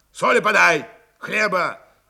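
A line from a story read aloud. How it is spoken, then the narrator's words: Menacing growl. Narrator (Russian): изредка и грозно рычал Пантелей Прокофьевич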